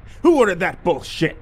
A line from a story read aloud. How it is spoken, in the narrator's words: the LT snarled